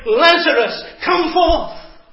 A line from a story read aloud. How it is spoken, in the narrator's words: He shouted